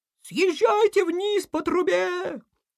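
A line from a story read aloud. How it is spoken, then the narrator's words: Distant squeak. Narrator (Russian): Где-то далеко пискнули в ответ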